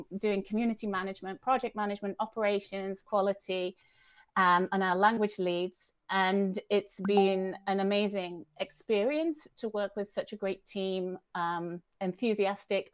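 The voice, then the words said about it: British accent. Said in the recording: “I am British, as you might tell from my accent”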